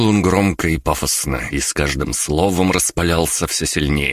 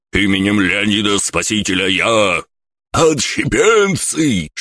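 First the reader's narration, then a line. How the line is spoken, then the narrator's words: Shocked shout. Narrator (Russian): Шокированно закричал стражник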